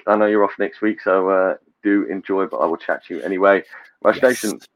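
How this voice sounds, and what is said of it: Husky, fading voice. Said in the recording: “My voice is going, as you could probably hear. I'm getting husky.”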